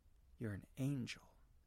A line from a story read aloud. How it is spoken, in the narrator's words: whispered